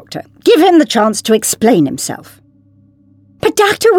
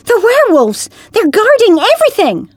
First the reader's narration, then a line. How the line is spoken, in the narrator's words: blurted Perry